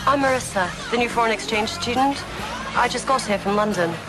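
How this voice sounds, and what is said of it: Terrible fake British accent. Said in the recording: “the one with the fake British accent. It's so terrible ... that phony English accent”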